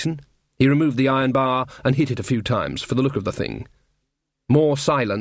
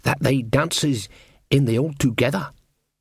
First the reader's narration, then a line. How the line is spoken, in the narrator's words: said Jason, lowering his voice